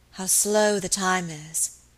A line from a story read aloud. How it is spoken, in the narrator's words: she said wearily